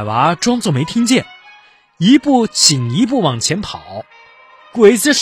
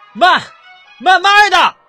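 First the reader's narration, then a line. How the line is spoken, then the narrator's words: Shouting. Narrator (Chinese): 小胡子吼起来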